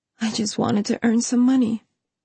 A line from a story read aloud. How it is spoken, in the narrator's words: she whispered